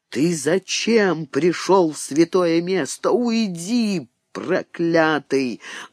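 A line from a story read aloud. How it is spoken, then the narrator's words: Menacing old man. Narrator (Russian): грозно сказал старик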